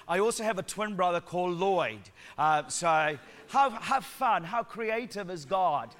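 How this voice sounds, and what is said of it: Sri Lankan and New Zealand accent. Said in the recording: “I've got a Sri Lankan accent mixed with New Zealand”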